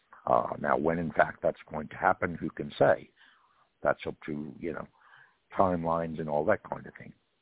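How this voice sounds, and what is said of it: Speaks with a noticeable accent. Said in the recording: “your accent”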